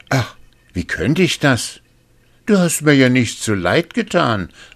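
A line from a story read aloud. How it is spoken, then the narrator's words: Young man calling out. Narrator (German): rief der Jüngling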